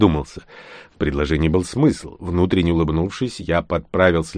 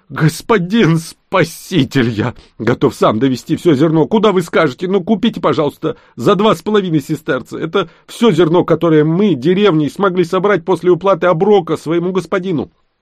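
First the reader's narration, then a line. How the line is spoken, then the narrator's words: Pleading shout. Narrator (Russian): Крестьянин он упал на колени и закричал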